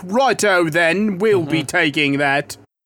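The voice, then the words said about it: Put-on pirate accent. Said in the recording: “I don't know why they have that accent. ... Because they're pirates.”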